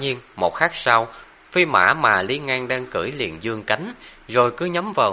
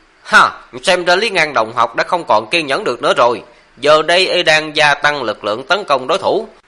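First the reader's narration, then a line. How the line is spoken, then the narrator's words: Excited loud commentator. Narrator (Vietnamese): Gã bình luận viên giống như vừa ăn phải xuân dược, tinh thần của y phấn chấn hẳn lên, lớn tiếng nói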